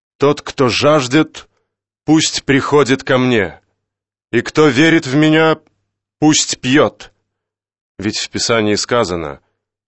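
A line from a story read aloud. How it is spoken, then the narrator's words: Loud proclamation. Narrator (Russian): Иисус громким голосом воскликнул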